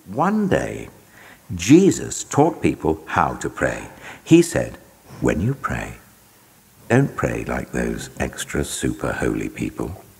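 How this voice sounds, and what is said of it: British accent. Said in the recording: “read by somebody with this like incredible British accent”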